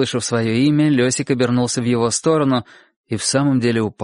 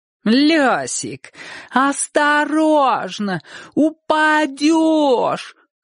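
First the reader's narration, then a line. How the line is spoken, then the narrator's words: Sing-song shout. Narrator (Russian): Нараспев кричал кто-нибудь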